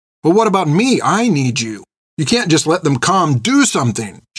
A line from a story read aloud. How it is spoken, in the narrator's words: she shouted at him